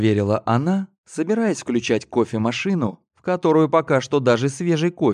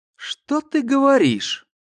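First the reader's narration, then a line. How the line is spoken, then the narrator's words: Displeased exclamation. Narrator (Russian): сперва недовольно воскликнула Карина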